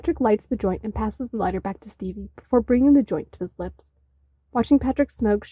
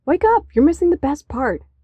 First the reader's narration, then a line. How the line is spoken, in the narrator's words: David exclaims, tired of watching one of his favorite movies all by himself